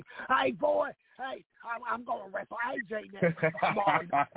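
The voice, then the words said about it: Thick redneck accent, Jamie Noble impression. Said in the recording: “Jamie Noble ... he's got that thick redneck accent.”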